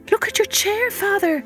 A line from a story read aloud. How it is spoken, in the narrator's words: Marigold cried